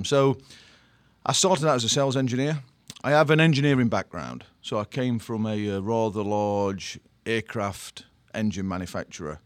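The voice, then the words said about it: British English accent. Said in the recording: “it's not quite a New Jersey ... accent. ... I originally from the UK”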